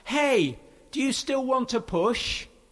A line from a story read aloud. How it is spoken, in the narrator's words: he shouts